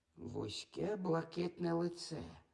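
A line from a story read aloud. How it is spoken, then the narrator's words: Whisper under breath. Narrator (Ukrainian): зашепотіла Софі собі під ніс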